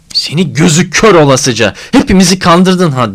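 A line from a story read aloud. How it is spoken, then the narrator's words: Shouted. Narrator (Turkish): diye bağırdığını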